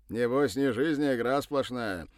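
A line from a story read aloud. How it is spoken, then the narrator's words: Snorting. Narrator (Russian): хмыкнул Кудрявый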